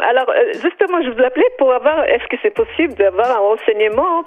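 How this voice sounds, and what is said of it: Israeli accent in French. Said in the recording (French): “quel est ce petit accent israélien ... l'accent, il est toujours là. Il est magnifique.”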